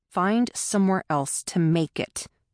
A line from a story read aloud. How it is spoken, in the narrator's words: Todd snapped